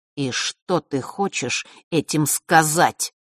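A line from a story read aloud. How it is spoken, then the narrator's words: Said through gritted teeth. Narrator (Russian): процедил он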